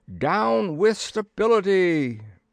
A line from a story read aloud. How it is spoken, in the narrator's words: I screamed